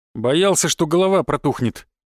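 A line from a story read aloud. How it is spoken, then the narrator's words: Wry snort. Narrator (Russian): хмыкнул я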